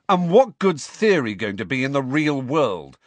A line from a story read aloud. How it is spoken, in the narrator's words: said Harry loudly